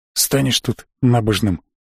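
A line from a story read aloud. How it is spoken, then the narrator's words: Grumbled. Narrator (Russian): буркнул тот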